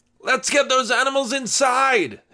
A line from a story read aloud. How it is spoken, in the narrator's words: his uncle shouted from the farm